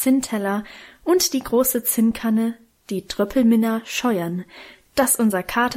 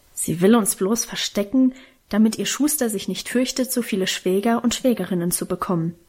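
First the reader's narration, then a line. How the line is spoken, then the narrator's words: Grumbling. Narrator (German): brummte Karl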